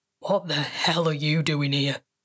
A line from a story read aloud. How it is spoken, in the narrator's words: He growled